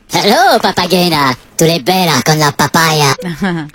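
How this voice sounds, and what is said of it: Minion voice impression. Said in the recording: “your best Minion impression.”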